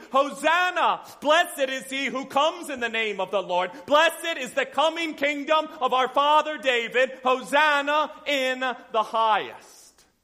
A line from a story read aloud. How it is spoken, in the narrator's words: those who went before Jesus and those who followed after him began shouting